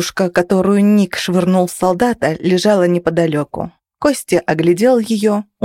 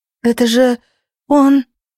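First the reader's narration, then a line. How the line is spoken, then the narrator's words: Babbling. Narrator (Russian): залепетала она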